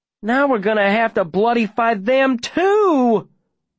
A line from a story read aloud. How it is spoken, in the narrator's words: Davy whines